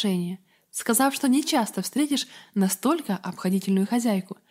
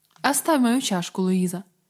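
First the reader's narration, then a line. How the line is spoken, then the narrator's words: Plain. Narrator (Russian): сказал дедушка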